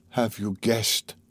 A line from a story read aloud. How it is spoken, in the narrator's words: he whispered at last